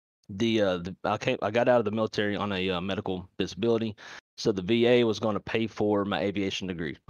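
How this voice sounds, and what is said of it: Louisiana Southern US accent. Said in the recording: “I've got an accent. I'm originally from Louisiana. ... where did that accent come from, bro? I love it though. ... I am from Louisiana.”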